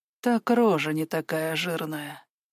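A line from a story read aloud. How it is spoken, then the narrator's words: Barely audible. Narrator (Russian): произнесла Кира едва слышно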